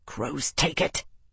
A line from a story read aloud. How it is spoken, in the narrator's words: Tavi snarled